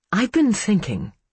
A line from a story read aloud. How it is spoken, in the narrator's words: she began, pacing nervously